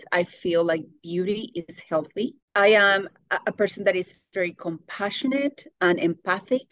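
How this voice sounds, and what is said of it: Speaks with a noticeable accent. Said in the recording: “because of my accent. ... things that I have said, mispronounced”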